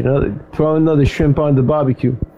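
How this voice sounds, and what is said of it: Put-on Australian accent. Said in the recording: “the Australian accent”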